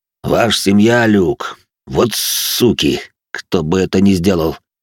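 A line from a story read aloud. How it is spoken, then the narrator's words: Deep bass voice. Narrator (Russian): пробасил здоровяк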